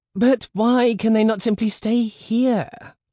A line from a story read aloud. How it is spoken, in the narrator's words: whined Lydia